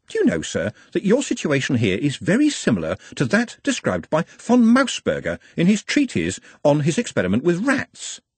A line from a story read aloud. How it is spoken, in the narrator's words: said cheerfully